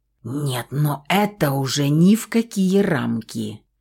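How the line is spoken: Angry hiss. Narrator (Russian): зло прошипел пернатый

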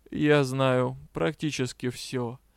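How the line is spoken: Vampire's calm reassurance. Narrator (Russian): спокойно заверил вампир

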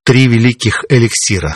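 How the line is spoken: Calm. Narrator (Russian): спокойно ответил я

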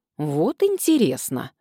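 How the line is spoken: Snapping retort. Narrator (Russian): огрызнулась я

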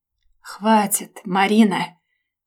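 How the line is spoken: Weary, resigned exhale. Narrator (Russian): Обреченно и устало выдохнул он, буквально вложив в свои слова остатки терпения

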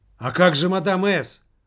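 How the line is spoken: Loud. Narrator (Russian): Он громко сказал

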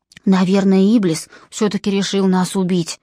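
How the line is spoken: Whisper. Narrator (Russian): шепнул Джон

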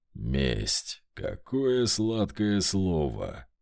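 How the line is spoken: Drawled. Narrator (Russian): протянул элементаль

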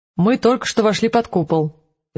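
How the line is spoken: Displeased declaration. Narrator (Russian): заявил Крата своим вечно недовольным тоном

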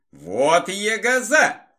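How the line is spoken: Amused exclamation, older man. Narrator (Russian): воскликнул пожилой водитель с усмешкой

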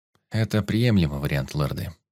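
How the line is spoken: Calm, even voice. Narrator (Russian): произнес спокойным и ровным голосом Алекс

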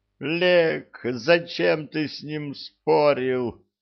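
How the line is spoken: Wailing. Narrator (Russian): взвыла Нет

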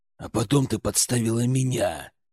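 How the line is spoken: Near growl. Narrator (Russian): почти прорычал я

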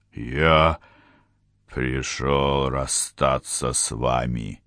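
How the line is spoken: Growl. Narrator (Russian): прорычал Отран

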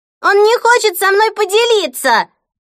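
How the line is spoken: Shrill scream. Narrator (Russian): пронзительно закричала Хлоя

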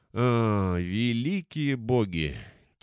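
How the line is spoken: Heavy sigh. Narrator (Russian): тяжело вздохнул Ифрит

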